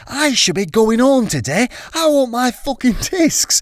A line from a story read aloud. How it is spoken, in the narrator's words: He screamed